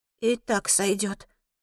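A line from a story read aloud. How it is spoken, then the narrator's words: Mumble. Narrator (Russian): бормочу я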